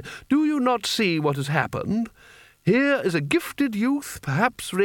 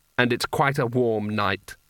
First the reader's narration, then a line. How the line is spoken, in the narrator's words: said one of the other wizards flatly